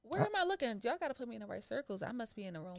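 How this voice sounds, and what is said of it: Philadelphia accent. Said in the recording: “You got a Philly accent.”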